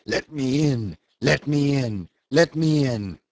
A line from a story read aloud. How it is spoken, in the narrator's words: to shout huskily